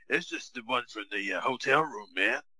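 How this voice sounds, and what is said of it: Raspy imitated voice. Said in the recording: “that raspy voice that he had”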